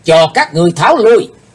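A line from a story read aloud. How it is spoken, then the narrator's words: Sudden ringing shout. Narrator (Vietnamese): thiếu giáo chủ của âm ma giáo bỗng hét vang lên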